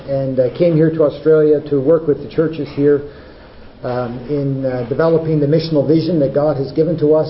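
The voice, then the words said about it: Canadian accent. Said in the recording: “I sound a little different because I come originally from Canada.”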